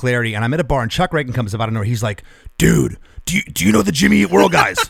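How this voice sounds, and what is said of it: Imitates another person's voice. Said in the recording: “That's my Chuck impression.”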